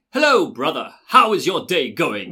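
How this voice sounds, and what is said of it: Put-on British accent. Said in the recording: “he speaks with a British accent ... It's very like that.”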